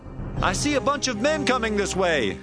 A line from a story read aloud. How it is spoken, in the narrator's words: the guard in the watchtower at Jezreel he shouted to the king